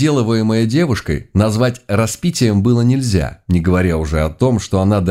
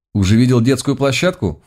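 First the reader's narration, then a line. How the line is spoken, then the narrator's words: Girl's snort. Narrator (Russian): фыркнула девушка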